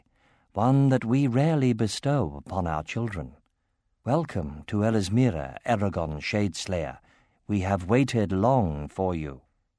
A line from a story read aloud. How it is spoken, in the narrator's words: she said softly